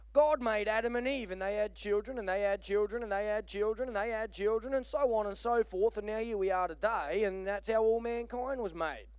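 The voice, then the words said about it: Unconvincing put-on English accent. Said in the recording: “Because evidently the little girl was English ... Can I keep doing the English accent? It sounds exactly the same to you, doesn't it? Yeah, thought so.”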